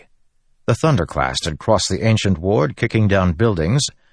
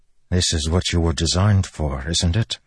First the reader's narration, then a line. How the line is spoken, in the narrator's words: Adolin said softly